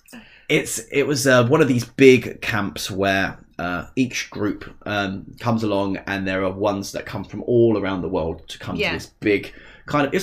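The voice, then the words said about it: Essex English accent. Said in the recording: “we're both from Essex, if you haven't noticed. Well, I'll try and hide the accent”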